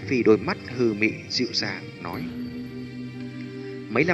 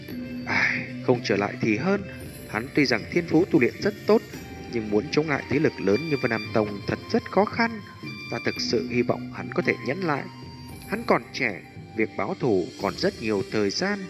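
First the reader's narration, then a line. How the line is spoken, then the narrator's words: Muttering. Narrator (Vietnamese): Hải Ba Đông lẩm bẩm nói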